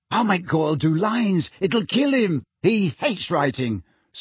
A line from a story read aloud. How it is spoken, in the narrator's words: said Ron happily